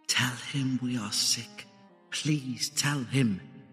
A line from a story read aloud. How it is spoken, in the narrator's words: the little girl was beside my bed and she whispered